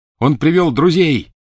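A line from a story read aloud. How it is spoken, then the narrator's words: Shouting. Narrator (Russian): крикнул Гарри остальным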